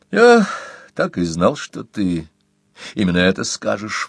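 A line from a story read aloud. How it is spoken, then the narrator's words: Sigh. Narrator (Russian): вздохнул Хит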